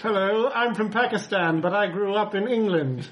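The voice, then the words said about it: Put-on Pakistani accent. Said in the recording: “do a Pakistani voice”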